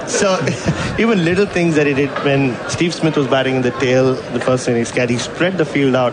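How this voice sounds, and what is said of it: Indian accent. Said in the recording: “I'm the only Indian accent allowed on this station.”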